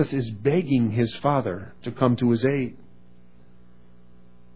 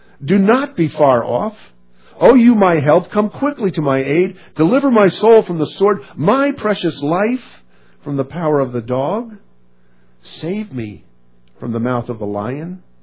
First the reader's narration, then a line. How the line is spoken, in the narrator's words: Jesus cried